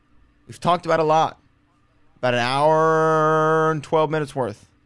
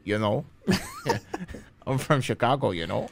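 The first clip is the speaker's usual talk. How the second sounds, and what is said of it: Put-on North Dakota/Canadian-sounding accent. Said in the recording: “your accent. ... It's between like somewhere in like North Dakota and Canada.”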